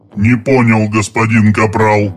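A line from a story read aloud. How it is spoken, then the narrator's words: Monotone droning. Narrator (Russian): монотонно прогудел Драмба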